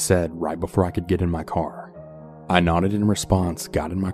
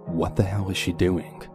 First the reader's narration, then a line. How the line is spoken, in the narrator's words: I mumbled to myself in complete shock